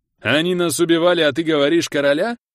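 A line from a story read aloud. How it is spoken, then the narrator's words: Angry yell, wounded man. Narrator (Russian): Зло заорал мужик с располосованным плечом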